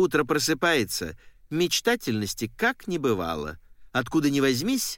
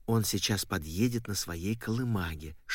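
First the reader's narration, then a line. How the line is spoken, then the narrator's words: Mother's whisper. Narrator (Russian): шепнула мама, обращаясь к отцу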